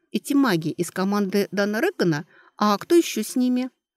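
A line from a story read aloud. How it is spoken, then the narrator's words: Quiet question. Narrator (Russian): тихонько спросила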